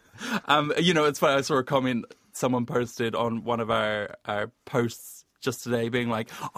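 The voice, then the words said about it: Thick southern New Zealand accent. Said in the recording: “my thick southern accent ... it's too thick, it's farcical”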